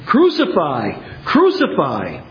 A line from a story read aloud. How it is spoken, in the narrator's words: the chief priests and the officers cried out, saying